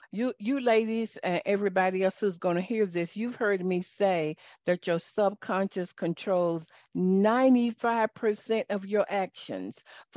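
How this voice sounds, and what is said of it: Southern American accent. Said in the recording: “excuse my Southern accent”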